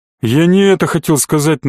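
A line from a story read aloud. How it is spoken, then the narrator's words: Sullen grumble. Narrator (Russian): набычившись, проворчал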